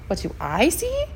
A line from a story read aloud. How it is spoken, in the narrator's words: asked Dwayne quietly